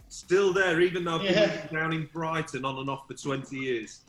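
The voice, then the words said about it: Slight northern English accent. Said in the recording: “You can tell from the accent. You still got a bit of a northern twang.”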